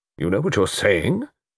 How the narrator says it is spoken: said Melrose gravely

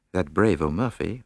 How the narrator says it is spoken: murmured Poirot thoughtfully

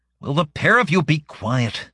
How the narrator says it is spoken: Salma grumbled without much hope

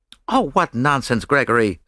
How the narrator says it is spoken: said Mary Marvel sharply

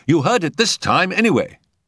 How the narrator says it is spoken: Jack ran up to her triumphantly, crying out

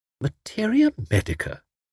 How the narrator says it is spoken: she murmured

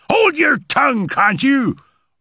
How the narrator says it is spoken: roared her husband wrathfully

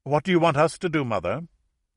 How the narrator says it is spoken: asked quickly, as if to stem the flow of painful memories

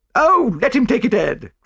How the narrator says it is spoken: cried his wife

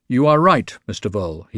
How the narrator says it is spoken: he said gravely

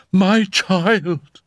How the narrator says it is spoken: cried Madame X

